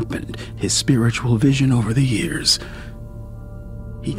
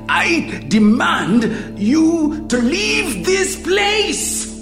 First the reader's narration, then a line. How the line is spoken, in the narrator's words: he screams